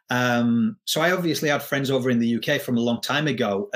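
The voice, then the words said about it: English accent. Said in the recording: “as you can hear from the accent. I am from England”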